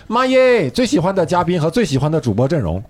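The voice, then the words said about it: Put-on Northeastern Chinese accent. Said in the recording (Chinese): “你是东北人吗？为什么念东北小胖妞是这口音？”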